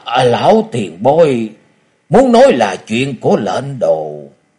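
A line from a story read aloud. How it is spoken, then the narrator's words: Trembling voice. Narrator (Vietnamese): Hắc Nho Siêu Sinh Thước giọng run rẩy nói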